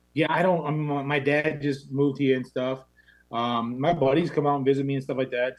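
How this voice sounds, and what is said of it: Thick Maine accent. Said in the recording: “losing your main accent ... It's so thick ... It's still pretty prevalent”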